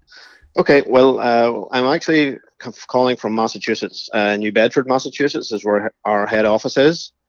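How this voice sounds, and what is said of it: Irish accent. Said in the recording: “that's not a Massachusetts accent I'm hearing. That's the Irish accent ... the Irish accent is getting stronger”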